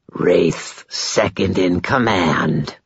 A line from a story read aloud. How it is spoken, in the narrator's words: the vampire rasped